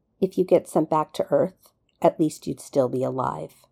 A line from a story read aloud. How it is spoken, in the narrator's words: John said in an even voice